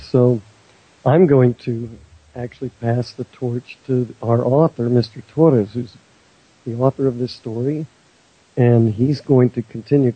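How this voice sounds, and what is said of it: Hoarse, strained sick voice. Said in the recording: “I've been very sick, and my voice is not doing so well today”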